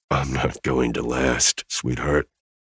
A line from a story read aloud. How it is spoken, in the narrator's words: hissed